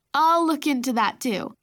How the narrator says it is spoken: Mom chuckled

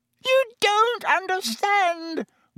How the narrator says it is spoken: whined Pettigrew

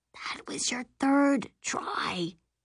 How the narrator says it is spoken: she whispers

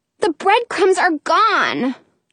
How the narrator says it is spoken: cries

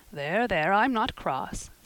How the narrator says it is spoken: said Marilla

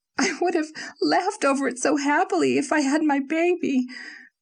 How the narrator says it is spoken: she sobbed to Marilla

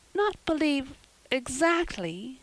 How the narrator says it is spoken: faltered Anne

